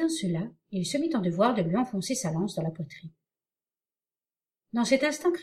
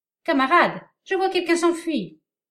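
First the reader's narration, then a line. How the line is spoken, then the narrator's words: Shouting at full strength. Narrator (French): Un des brigands cria de toutes ses forces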